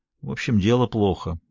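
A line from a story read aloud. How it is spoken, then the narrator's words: Gloomy. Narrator (Russian): мрачно заключает Марино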